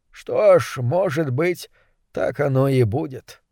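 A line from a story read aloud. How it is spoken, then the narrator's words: Mumble. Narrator (Russian): пробормотал он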